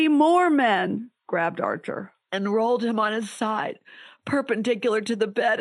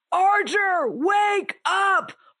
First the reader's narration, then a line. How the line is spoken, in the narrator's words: They were screaming